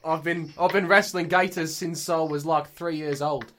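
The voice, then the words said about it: Poor put-on Australian accent. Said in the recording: “You sound like Danny Dyer. ... That was not a good Australian accent.”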